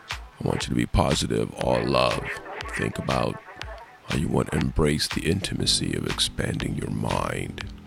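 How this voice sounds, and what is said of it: Imitates another person's voice. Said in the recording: “my imitation ... I'm doing a terrible impression of him”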